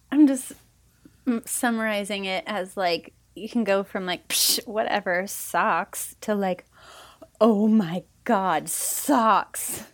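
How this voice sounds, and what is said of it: Put-on Valley Girl California accent. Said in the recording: “It was very California, too. ... Kind of like the Valley Girl voice.”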